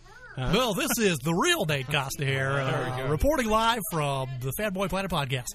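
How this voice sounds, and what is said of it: Polished announcer-style radio voice. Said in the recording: “Now that's a quality radio voice.”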